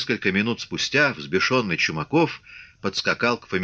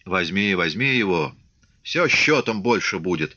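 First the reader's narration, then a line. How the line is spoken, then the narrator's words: Calm. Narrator (Russian): спокойно сказал Фомин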